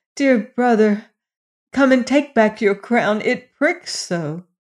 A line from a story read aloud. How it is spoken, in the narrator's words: The queen's son cried